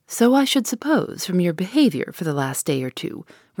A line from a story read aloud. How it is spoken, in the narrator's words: returned the other coolly